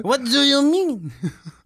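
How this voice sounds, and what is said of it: Put-on French accent. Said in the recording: “Is that your French accent? ... That's better. Yeah. That is a lot better. ... We're never good at accents.”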